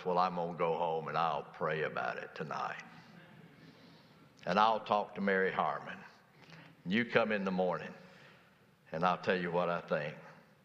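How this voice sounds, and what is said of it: Gravelly old man's voice. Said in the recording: “in that old gravelly voice,”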